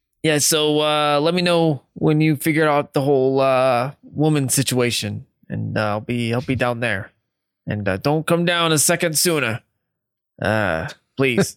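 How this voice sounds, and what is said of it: Put-on character accent. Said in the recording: “There's that accent. ... Randomly shoving it in.”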